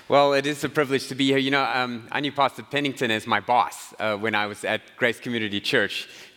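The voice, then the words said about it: Southern American accent. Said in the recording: “I don't have an accent. This is how we speak in the South.”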